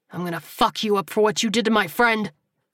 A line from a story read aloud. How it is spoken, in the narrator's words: the gunman snarled, despite the blood pouring from his shoulder